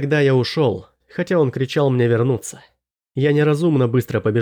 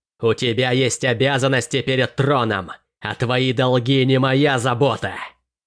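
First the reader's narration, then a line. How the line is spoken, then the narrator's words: Angry growl. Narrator (Russian): Она уже рычала, давая волю гневу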